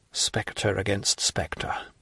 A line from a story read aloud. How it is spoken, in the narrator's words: he murmured in a low voice